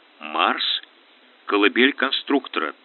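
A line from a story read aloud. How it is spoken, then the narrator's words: Slow. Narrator (Russian): ответил Ратибор медленно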